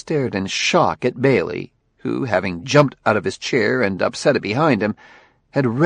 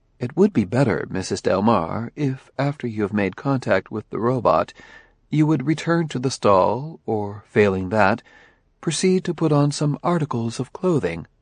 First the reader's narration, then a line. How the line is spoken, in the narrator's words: Daniil said calmly